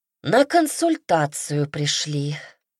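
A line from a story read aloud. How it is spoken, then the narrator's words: Sighing, from behind. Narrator (Russian): вздохнул из-за спины новоприбывшего ректор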